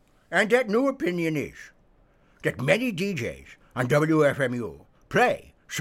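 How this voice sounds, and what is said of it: Usual voice. Nothing is said of it.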